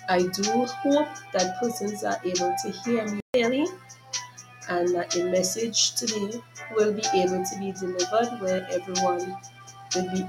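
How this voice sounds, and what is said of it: Hoarse, congested voice. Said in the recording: “excuse my voice as I'm now recovering from a flu and some sore throat and nasal congestions”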